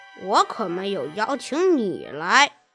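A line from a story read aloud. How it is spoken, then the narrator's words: Muttering under breath. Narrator (Chinese): 低声咕哝道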